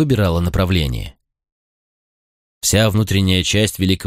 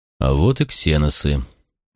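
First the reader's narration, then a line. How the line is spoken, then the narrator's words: Gloomy remark. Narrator (Russian): мрачно заметил я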